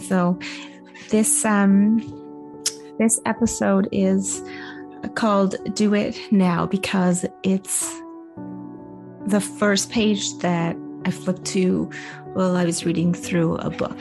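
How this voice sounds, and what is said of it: Hoarse, congested voice. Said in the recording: “losing my voice and really bad head cold. And so if I sound a little off, I can feel it.”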